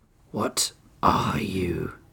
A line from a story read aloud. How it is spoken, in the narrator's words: Oryx growled